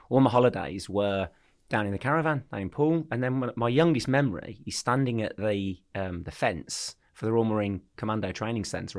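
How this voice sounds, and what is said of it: Birmingham English accent. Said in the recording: “you can probably tell from my accent, I'm from Birmingham”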